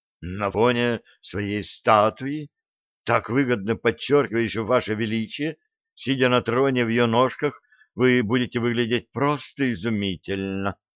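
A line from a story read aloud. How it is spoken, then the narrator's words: Neutral small voice. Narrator (Russian): нейтральным голоском сказала Лилиан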